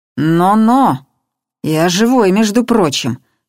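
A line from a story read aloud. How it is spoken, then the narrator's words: Stern. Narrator (Russian): строго сказал ему Бабкин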